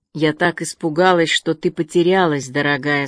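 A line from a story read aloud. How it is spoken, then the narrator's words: Said tenderly. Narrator (Russian): сказала она нежно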